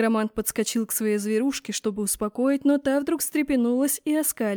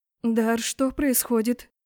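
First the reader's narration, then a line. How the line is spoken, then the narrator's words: Frightened question. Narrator (Russian): Испуганно спросила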